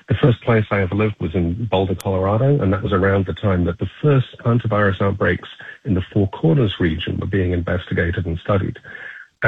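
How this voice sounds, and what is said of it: Non-American foreign accent. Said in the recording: “tell from my voice, by the way, that I'm not originally from the United States.”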